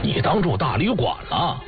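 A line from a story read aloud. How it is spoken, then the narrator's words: Stern, harsh. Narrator (Chinese): 尤天笑厉声说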